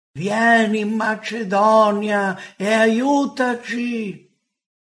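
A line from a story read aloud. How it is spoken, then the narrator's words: Pleading. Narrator (Italian): un macedone che lo supplicava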